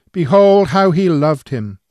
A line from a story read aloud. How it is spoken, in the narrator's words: we might exclaim